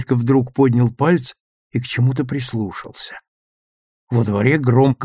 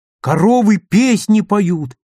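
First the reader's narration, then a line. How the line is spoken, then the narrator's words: Joyful shout. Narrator (Russian): радостно крикнул он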